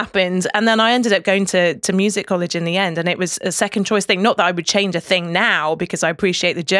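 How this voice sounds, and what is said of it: Usual voice. Nothing is said of it.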